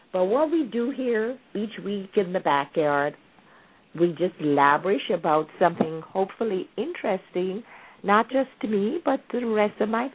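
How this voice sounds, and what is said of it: Slightly raspy, husky voice. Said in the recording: “I'm a little raspy this evening ... I feel a little tickle in my throat. So if I'm sounding sort of sexy”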